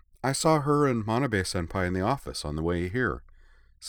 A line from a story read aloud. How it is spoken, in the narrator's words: said Ui